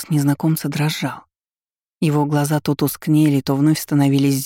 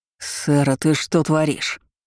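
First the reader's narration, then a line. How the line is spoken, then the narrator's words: Growling. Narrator (Russian): Ролан зарычал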